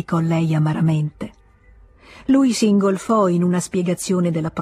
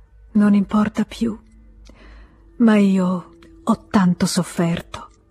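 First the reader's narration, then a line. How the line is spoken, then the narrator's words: Sighing. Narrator (Italian): e sospirò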